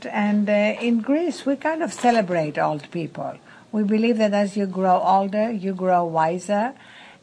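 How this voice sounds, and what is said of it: Greek accent. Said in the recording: “I'm Greek, as you can hear from this accent.”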